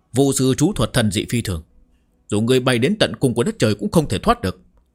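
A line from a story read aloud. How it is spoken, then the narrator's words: Laughing, raised voice. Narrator (Vietnamese): Mộc Tiêu Man cười lớn một tiếng, cao giọng nói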